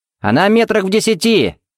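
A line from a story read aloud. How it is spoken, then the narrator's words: Shout. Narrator (Russian): крикнул Тед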